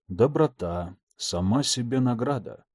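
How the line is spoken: Whispered. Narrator (Russian): прошептал

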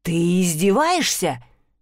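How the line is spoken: Hissed. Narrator (Russian): прошипел Дантелеон

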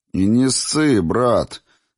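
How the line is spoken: Good-natured booming. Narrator (Russian): добродушно прогудел кавказец

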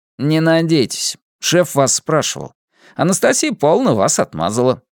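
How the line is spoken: Cheerful, lively. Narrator (Russian): весело сообщил Василий, заметно оживившийся при появлении Зои

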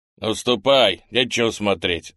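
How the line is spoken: Shouted. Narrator (Russian): закричал он

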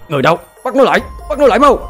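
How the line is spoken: Frantic screams. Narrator (Vietnamese): tiếng hét thất thanh của Nguyễn Diên Ngoại và Ngọc Di

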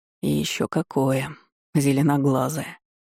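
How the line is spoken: Purring, villainous. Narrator (Russian): промурлыкал мерзавец

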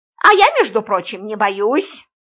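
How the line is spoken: Angry reply. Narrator (Russian): сердито ответила Антонина

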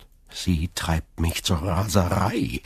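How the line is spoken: Groaned. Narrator (German): stöhnte Fernand

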